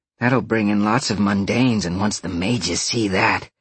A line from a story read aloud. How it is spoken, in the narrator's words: Roxy growled, grinning